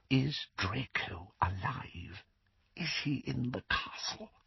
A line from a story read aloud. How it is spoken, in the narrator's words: The whisper was barely audible